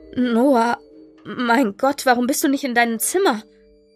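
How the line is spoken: Stammering. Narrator (German): Noahs Mutter stammelte

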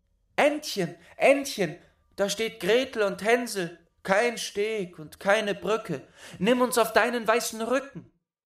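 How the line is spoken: Called out. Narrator (German): Da rief sie

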